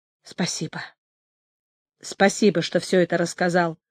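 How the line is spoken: Muffled voice. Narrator (Russian): глухим голосом сказал Олег

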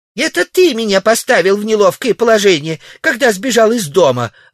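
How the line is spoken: Snapped back. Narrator (Russian): огрызнулась Ксения

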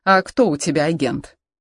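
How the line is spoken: Plain. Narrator (Russian): спросил он

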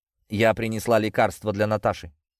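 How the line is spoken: Calm. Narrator (Russian): спокойно сказала она

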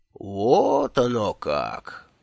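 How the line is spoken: Old man's surprised drawl. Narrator (Russian): удивленно протянул дедушка Тухта

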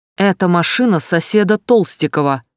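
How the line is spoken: Sudden sharp. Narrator (Russian): вдруг резко сказал Погорелов

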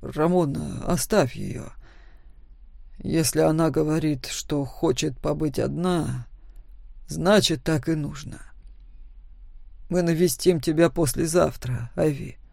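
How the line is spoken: Calm father. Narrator (Russian): спокойно сказал отец

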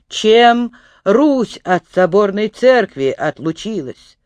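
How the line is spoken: Stern question. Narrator (Russian): строго он спросил

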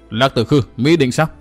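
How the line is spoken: Loud shout. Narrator (Vietnamese): Ma Âm Tiên Tử Phan Tiểu Nương quát một tiếng lớn

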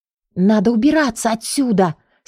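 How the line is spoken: Girl hissing through teeth. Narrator (Russian): сквозь зубы прошипела девушка

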